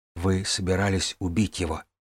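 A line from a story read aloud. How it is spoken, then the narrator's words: Whisper. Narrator (Russian): прошептал брат Коун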